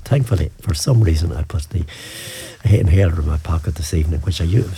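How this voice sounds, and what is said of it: Slightly hoarse voice. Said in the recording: “I'm a bit hoarse here, a bit of asthma”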